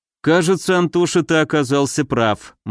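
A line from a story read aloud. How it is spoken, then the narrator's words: Grim. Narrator (Russian): мрачно проговорил я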